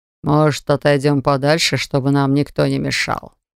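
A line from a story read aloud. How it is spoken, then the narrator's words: Purred into ear. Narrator (Russian): Промурлыкал на ухо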